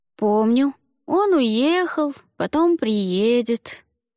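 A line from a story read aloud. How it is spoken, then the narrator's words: Drawling. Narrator (Russian): протянул Димка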